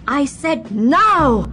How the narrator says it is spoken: Atricar shouted

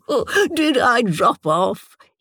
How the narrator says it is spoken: He asked, shaking as he laughed

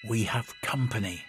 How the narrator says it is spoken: Thelar said quietly

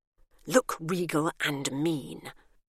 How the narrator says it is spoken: she whispered to Emmy

